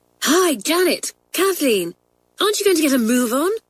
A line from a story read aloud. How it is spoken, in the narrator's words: cried Hillary